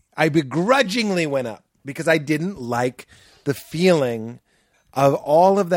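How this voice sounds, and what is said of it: Usual voice. Nothing is said of it.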